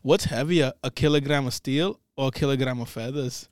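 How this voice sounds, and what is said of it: Put-on Scottish accent. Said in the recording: “it's just a Scottish guy ... The man's accent.”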